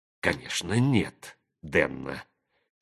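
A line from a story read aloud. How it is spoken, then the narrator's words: Quiet speech. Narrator (Russian): тихо сказала Констанция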